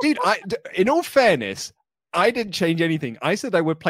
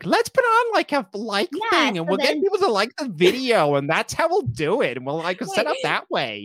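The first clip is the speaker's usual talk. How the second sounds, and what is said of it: Imitates another person's voice. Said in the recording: “That's your impression of me? ... I thought it was pretty spot on”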